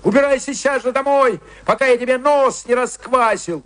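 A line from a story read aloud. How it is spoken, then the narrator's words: Shouted. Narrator (Russian): Джо крикнул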